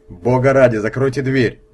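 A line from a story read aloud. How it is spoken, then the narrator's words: Booming voice. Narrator (Russian): прогремел чей-то голос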